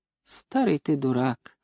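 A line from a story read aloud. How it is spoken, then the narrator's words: Calm grandmother. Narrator (Russian): спокойно сказала бабушка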